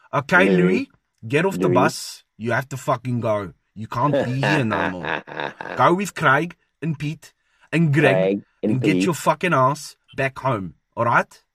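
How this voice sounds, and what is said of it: Stereotypical South African accent, rolled R's. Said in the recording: “it's somewhat stereotypical and it's not necessarily authentic ... I like to think that I've got some of the execution down, you know, like the rolling of the R's and saying certain names in a South African accent”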